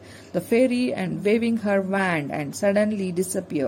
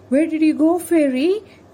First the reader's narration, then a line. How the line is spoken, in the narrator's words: cried Frank anxiously